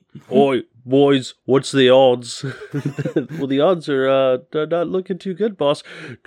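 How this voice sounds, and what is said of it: Orc character voice, accent shifts midway. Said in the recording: “You changed accents halfway through... I'm terrible at accents.”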